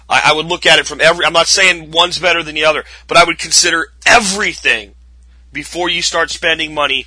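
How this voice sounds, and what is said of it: Weak, worn-out voice. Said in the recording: “My voice is really gone today. Hopefully it'll be back nice and strong tomorrow.”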